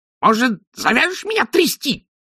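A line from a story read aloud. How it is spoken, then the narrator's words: Indignant squeak. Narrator (Russian): возмущенно пискнул бес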